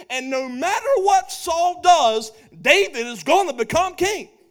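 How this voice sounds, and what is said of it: Yelling, loud emphatic speech. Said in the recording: “I'm yelling.”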